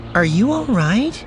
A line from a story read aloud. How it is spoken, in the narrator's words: Juahir asked anxiously